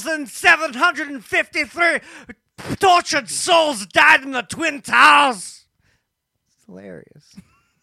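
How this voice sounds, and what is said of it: Heavy put-on Scottish accent. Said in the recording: “Do it all in a heavy Scottish accent.”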